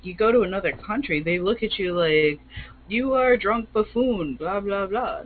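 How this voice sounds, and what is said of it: Bad unidentified put-on accent. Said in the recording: “that was a horrible accent. I don't even know what I was trying to go for there.”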